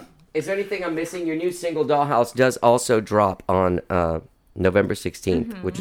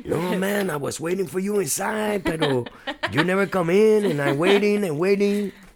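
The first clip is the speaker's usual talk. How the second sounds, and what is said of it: Put-on Spanish accent. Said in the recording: “my Spanish accent comes out”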